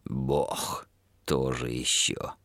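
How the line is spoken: Mutter. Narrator (Russian): пробормотал он

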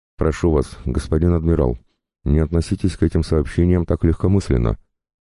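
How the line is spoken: Terrified nonstop rapid chatter. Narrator (Russian): безостановочно тараторил перепуганный насмерть Шипотев, склонившись к самому уху диктатора

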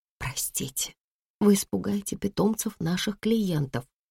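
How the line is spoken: Woman whispering. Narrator (Russian): прошептала женщина из регистратуры

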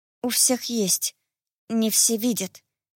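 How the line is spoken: Quiet answer. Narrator (Russian): тихо ответила я

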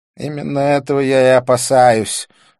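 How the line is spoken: Sighing. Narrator (Russian): вздохнул он

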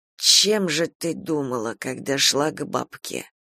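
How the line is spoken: Quiet, suppressed fury. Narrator (Russian): спросил Егор тихо, хотя было понятно, какой силой ярость кипит у него внутри

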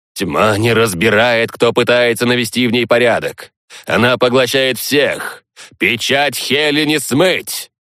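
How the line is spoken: Low booming drone. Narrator (Russian): прогудел набожный Ленард

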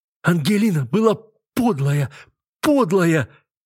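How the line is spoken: Repeating through tears. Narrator (Russian): твердила она сквозь слезы

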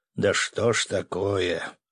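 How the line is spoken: Weary or theatrical sigh. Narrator (Russian): устала или театрально вздохнул

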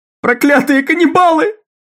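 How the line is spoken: Hysterical sobbing scream. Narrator (Russian): кричала какая-то женщина в переполненном кинотеатре, внезапно разразившаяся истерическими рыданиями

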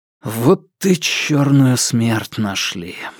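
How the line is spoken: Breathed out. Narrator (Russian): выдохнул я

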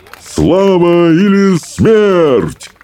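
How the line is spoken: Roaring. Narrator (Russian): взревел стоик обширный

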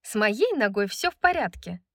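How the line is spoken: Angry snap. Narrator (Russian): Огрызнулась Брайс, сердито посмотрев на Ханта

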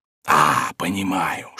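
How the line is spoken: Whispered. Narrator (Russian): шепотом добавил Пету

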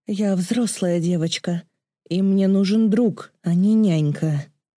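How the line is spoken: Furious growl. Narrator (Russian): Она зарычала, не в силах побороть приступ ярости

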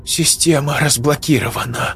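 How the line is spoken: Relieved exhale, young woman. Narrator (Russian): выдохнула облегченно девушка

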